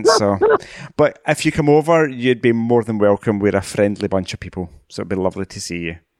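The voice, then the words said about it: Scottish accent. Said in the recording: “come to Scotland ... I want to come to Scotland just so I could listen to you talk ... 5 million of us. We all kind of talk variations of this accent”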